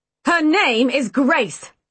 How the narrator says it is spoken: Dad interrupted harshly

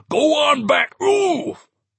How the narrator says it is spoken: He screams at the mayor right in his face

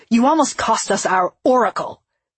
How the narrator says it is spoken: Rizek snapped

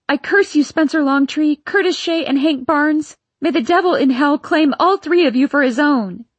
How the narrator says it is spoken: I screamed out

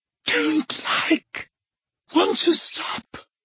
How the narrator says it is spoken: moaned Dumbledore

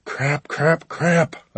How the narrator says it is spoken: whispered

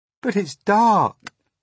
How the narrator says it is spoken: cried James

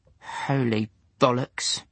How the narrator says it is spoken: muttered Lewis

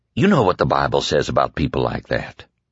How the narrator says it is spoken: Flagg asked quietly

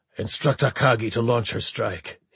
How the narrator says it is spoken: he said harshly

